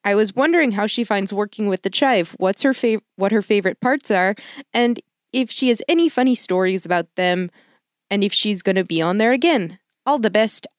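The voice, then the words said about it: Put-on Canadian accent, somewhat Midwestern. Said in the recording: “that was my Canadian accent. ... I think it was good. ... Midwestern”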